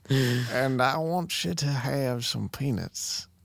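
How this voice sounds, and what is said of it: Put-on Southern old-timey accent. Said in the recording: “I like to imagine him with, like, a southern accent ... That was an old timey accent”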